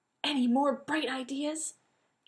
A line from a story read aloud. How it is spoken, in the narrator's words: Jeannie whispered furiously